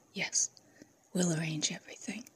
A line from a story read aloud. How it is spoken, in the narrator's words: Pavla whispered